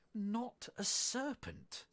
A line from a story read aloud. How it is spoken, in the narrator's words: said Alice indignantly